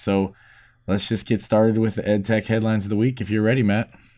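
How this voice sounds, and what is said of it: Deep, cold-affected voice. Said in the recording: “my voice is a little off tonight. I've had a cold and I'm getting the real deep baritone registers.”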